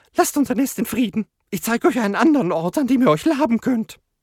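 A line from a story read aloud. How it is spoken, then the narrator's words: Stuttering. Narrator (German): stotterte Homelette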